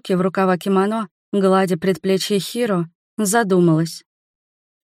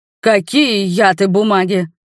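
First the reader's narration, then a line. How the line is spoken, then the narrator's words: Prince roaring. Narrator (Russian): взревел принц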